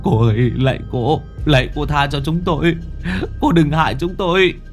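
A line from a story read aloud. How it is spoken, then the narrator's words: Tearful begging. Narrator (Vietnamese): Chúng nó mếu máo van xin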